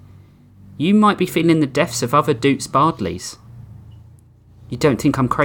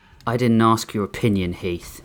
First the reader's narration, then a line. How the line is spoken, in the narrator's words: Halley muttered